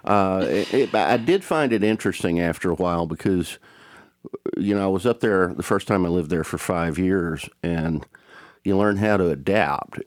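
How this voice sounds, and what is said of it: Speaker with a regional twang. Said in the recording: “you can't go to New York with a twang like mine and not be made fun of ... I adapted while keeping my accent because I just couldn't get rid of it”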